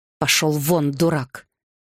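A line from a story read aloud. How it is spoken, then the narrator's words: King's angry growl. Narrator (Russian): рыкнул король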